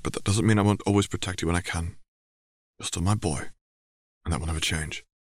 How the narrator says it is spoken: his father murmured

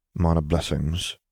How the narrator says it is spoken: Piet muttered back

